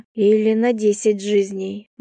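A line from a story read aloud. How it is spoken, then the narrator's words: Gloomy. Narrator (Russian): мрачно ответила я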